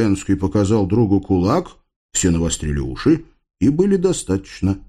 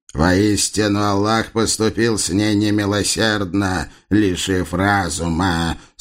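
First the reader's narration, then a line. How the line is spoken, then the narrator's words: Deep compassionate boom. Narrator (Russian): сострадательно прогудел тяжелый голос Шахмета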